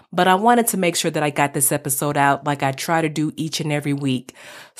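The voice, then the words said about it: Slightly hoarse, scratchy voice. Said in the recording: “my voice was a little hoarse, and you might can even tell a little bit. It's still a little bit scratchy right now.”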